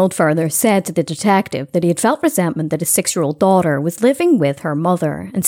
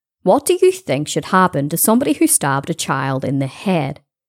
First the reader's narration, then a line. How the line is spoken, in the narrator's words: he replied